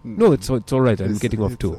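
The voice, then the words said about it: Put-on accent imitating another person. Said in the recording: “my accent might be, you know, a little off here”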